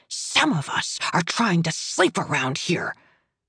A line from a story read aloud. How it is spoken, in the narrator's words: our elderly neighbor pops his head into the hallway to hiss